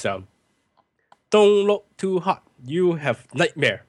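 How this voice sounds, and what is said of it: Put-on Hong Kong English accent. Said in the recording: “I gotta do an accent because Ian Powers was dubbed in the film ... they actually probably got one of the Hong Kong staff to do this”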